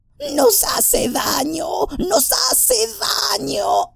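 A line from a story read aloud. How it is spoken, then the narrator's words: Hissing. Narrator (Spanish): siseó Gollum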